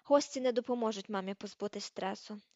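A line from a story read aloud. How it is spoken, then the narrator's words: Sigh. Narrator (Ukrainian): зітхнув Рон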